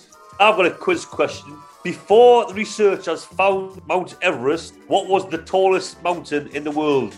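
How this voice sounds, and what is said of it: Newcastle (Geordie) English accent. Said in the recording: “I'm from Newcastle, hence the accent.”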